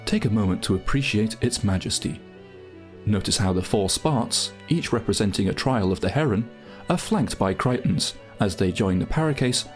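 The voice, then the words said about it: Posh English accent. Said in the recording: “put on your your posh voice”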